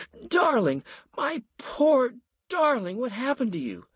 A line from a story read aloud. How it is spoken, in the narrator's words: Marion wailed